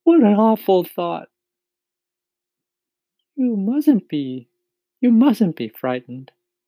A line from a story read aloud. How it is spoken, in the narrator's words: the ladybug said kindly